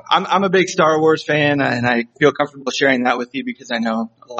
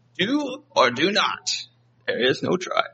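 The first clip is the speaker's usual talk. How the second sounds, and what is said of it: Poor Yoda character voice. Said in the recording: “That's a terrible impression. Sorry, I'm not Yoda.”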